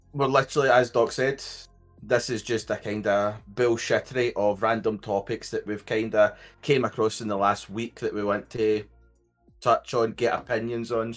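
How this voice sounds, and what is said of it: Scottish accent. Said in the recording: “I am from Scotland. So if you can't understand me, it's not because of your hearing, it is just me and my accent”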